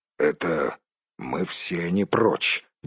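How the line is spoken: Gruff mutter. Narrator (Russian): буркнул Торин

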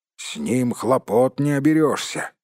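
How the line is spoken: Grumbling gnome. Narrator (Russian): проворчал кто-то из гномов

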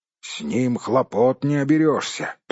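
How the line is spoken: Grumbling. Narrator (Russian): проворчал кто-то из гномов

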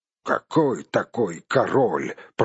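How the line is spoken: Grumble. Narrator (Russian): пробурчал другой

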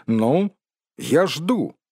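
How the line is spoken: Forced stern confidence. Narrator (Russian): Бильбо постарался, чтобы его голос прозвучал строго и уверенно, хотя сам вовсе не был уверен в благополучном для себя исходе игры

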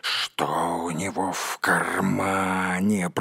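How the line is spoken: Hissed. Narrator (Russian): прошипел Голлум

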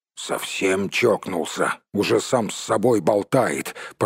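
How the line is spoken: Grumbling. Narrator (Russian): пробурчал Том

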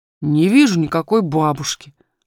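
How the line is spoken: Rather rude. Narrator (Russian): ответил он довольно грубо

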